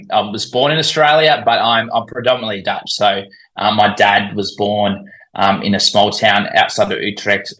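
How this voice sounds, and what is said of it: Australian accent. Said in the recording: “from your accent, it's more or less obvious you have an Antipodean origin... So I'm assuming you're Australian... I, I, can't hide it with my accent”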